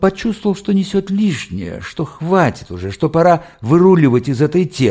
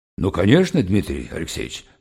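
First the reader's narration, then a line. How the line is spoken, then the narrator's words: Low booming voice. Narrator (Russian): прогудел Снеговой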